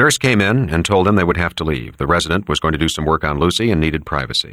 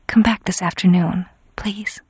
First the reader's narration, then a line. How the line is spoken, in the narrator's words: She whispered